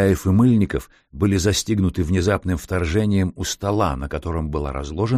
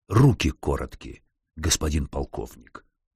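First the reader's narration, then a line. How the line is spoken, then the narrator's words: Growled. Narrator (Russian): рыкнул он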